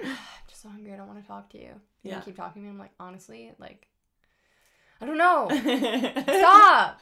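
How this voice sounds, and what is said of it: Annoyed, exasperated voice. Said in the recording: “That was just my annoyed impression.”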